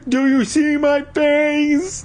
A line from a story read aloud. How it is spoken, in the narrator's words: I wailed